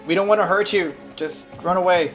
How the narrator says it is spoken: he yells at the guard

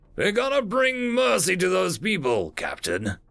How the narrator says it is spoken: the human asked, his voice cold and grating

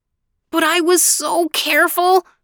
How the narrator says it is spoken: moaned the unhappy man

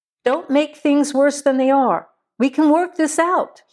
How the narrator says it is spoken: yelled

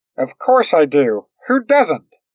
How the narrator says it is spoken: they blurted out, in agitation

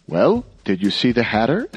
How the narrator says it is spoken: exclaimed the magistrate, eager at last to obtain some positive information

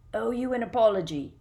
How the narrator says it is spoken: grunted a voice from the middle of the smelly cloud

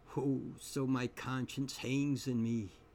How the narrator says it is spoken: he groans, straight upwards

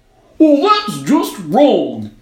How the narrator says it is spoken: it cried

